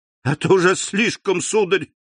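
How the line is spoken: Breathless exclamation. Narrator (Russian): воскликнула, задыхаясь, Эрмина

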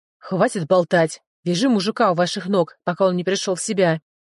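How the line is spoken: Sharp bark. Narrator (Russian): рявкнул

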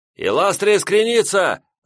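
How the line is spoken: Signalman's shout. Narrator (Russian): закричал сигнальщик

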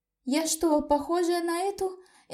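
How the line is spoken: Horrified sobbing. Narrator (Russian): всхлипывала я, с ужасом

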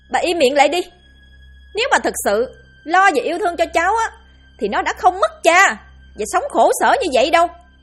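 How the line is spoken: Furious shout. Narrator (Vietnamese): điên tiết quát

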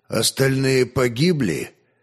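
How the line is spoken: Grim question. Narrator (Russian): мрачно осведомился князь

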